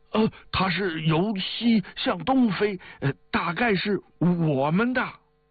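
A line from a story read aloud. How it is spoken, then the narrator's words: Shouting. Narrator (Chinese): 有的喊着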